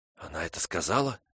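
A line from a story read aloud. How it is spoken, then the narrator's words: Whispered question. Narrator (Russian): шепотом спросила Фрона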